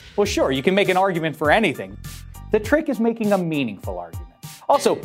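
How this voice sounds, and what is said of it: Usual voice. Nothing is said of it.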